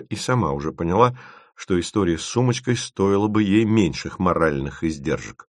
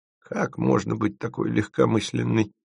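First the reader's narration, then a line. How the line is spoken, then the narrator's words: Grumbling old woman. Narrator (Russian): проворчала какая-то старушка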